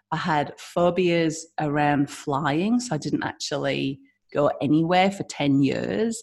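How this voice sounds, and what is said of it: British (UK) English accent. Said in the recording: “as you can hear my accent, I'm from the UK”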